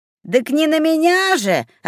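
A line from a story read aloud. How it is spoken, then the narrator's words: Snapping back. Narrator (Russian): огрызнулся неугомонный человечек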